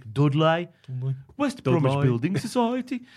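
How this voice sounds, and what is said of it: Put-on Black Country accent. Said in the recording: “black country accent is terrible. Well, mine's fantastic.”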